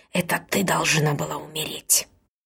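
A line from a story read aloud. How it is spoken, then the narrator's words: Hissing. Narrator (Russian): шипела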